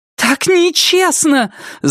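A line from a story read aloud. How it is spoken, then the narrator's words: Frightened shout. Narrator (Russian): закричала Полли в пустую комнату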